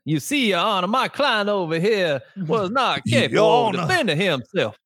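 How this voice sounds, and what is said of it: Old Southern lawyer accent. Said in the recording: “can you talk like an old Southern Baptist lawyer?”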